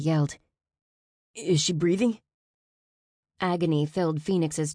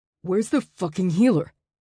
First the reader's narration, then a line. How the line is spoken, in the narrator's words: Atlas growled